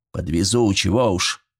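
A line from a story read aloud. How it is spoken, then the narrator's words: Muttering. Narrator (Russian): Пробурчал председатель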